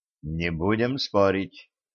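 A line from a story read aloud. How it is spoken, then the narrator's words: Whispered. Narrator (Russian): шепнул друзьям Дэн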